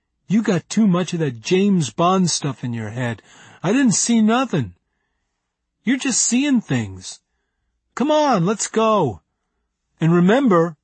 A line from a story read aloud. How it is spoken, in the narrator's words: Larry whined